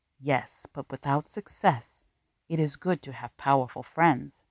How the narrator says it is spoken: said Asif

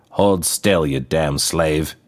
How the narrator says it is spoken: he growled

